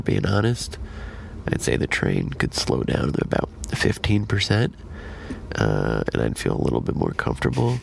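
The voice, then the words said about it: Whispering. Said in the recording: “Why is he whispering? You don't have to whisper.”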